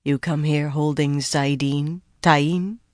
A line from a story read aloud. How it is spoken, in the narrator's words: Rand said, much too softly